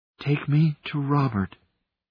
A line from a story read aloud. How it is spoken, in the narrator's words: she breathed again